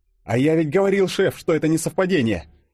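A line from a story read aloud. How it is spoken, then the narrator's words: Exclaimed. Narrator (Russian): воскликнул Фадеев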